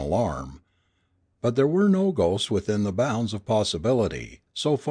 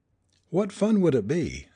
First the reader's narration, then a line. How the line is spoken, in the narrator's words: said David